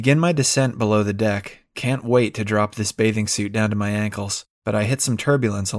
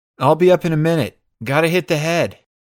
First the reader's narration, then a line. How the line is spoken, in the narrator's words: I yell back